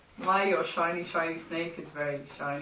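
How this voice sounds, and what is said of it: Put-on Devon accent. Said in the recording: “I've suddenly developed a Devon accent.”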